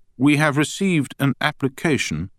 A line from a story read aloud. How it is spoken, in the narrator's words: continued in a dry, even tone